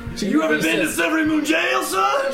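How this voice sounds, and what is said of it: Southern accent character voice. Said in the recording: “That's a very good southern man.”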